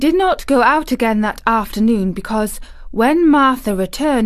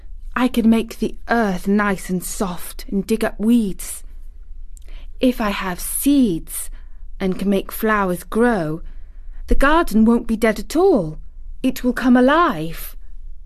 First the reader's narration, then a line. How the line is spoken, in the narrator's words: she whispered